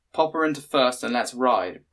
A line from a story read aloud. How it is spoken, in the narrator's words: Brock called out with exaggerated cheerfulness